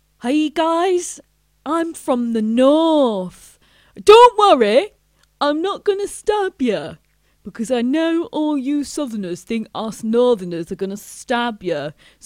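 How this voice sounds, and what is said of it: Put-on northern English comedian accent. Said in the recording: “I do a good impression of a northern comedian doing a stand-up show in the south ... my impression of a northern comedian”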